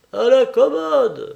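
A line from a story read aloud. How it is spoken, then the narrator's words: Shrill yelp. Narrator (French): glapit un autre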